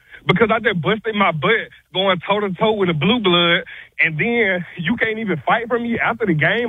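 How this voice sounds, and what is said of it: Out of breath, breathless speech. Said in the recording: “out of breath... That's out of breath.”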